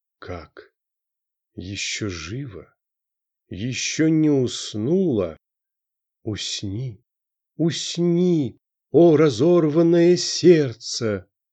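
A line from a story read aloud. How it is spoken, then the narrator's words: Quavering voice. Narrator (Russian): говорил дребезжащим голосом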